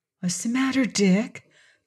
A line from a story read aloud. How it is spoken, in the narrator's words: Dorothy whispered into his ear